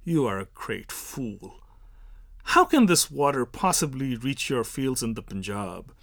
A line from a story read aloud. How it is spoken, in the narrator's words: The Brahmin sneers